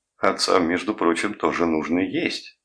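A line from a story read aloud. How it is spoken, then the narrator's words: Laughing. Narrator (Russian): засмеялся доктор Левин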